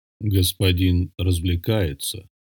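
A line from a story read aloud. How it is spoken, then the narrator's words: Quiet, fat man. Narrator (Russian): негромко сказал толстяк валом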